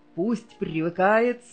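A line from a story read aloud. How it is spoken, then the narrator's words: Laughing father. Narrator (Russian): смеялся отец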